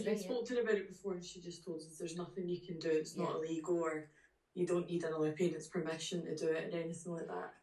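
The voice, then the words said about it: Scottish accent. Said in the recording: “you've got a gorgeous Scottish accent.”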